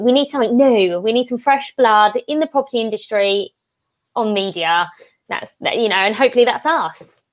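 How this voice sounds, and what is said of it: Essex English accent. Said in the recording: “a little bit of Essex ... your lovely Essex voice ... a fresh accent”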